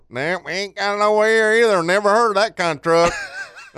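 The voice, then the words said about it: Quoted store clerk in an accent. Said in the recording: “That's the best accent ever.”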